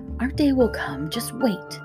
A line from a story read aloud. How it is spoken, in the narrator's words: Janie whispered